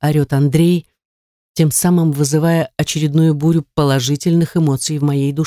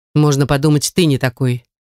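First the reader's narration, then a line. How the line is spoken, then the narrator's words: Sharp interruption. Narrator (Russian): Резко перебиваю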